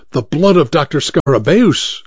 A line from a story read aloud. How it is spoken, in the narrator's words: exclaimed Dr